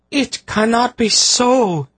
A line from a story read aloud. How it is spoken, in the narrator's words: Tsaradas wailed